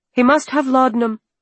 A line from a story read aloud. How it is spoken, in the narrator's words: I cried